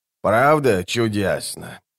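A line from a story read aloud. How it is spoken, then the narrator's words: Sigh. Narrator (Russian): вздохнула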